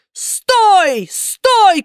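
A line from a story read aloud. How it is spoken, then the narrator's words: Several robbers shouting. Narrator (Russian): кричали разбойники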